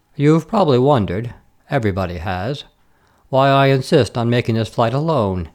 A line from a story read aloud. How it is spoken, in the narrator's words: he said, speaking just loudly enough to be heard above the purring of the mighty but almost silent motor behind him